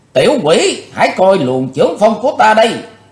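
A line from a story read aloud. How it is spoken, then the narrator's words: Old woman's thunderous roar. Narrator (Vietnamese): Lão bà gầm hét rung động cả mấy tàn cổ thụ ở bên đường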